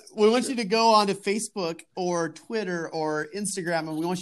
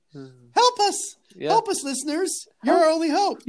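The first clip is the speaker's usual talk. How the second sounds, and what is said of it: Princess Leia impression. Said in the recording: “You totally wanted to do the Leia voice again. ... I did want to do the Leia voice again.”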